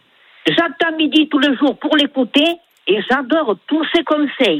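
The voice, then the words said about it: Sing-song regional French accent. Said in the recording (French): “votre accent chantant”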